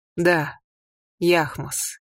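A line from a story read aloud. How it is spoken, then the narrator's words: Quiet. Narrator (Russian): тихо сказал Хори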